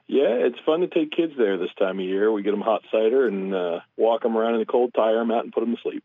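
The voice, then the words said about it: Deep, congested voice from cold. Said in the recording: “I'm getting over a cold ... it gives you a nice deep voice.”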